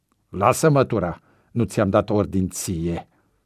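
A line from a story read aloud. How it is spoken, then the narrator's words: Gritting teeth. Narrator (Romanian): scrâșni Cotoi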